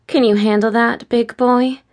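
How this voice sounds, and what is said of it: Teasing voice. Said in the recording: “in a teasing voice”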